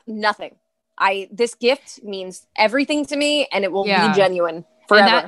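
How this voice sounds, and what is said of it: East Coast American accent. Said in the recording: “the East Coast accent”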